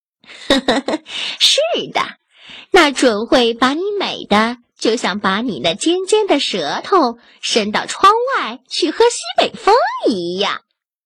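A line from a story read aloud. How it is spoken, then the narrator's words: Grinning, amused. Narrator (Chinese): 猫笑嘻嘻的回答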